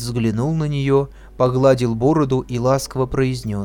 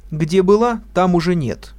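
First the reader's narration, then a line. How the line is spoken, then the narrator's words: Sharp. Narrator (Russian): резко сказала Шура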